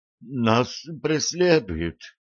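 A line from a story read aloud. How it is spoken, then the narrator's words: Strained, forced out. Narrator (Russian): выдавил он из себя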